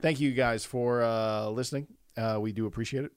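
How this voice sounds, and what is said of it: Poor impression of the president. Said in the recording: “I'm talking like the president... That was a horrible impression.”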